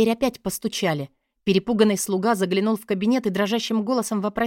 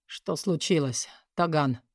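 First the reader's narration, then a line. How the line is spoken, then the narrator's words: Tired voice. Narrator (Russian): устало произнес Май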